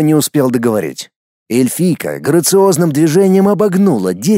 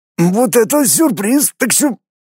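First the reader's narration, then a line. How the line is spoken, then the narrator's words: Strained hoarse rasp. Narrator (Russian): Дмитрий с трудом прохрипел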